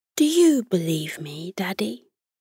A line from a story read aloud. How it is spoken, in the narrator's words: Amelia whispered